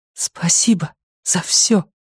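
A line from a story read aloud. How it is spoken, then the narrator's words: Whispered. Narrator (Russian): прошептала Люми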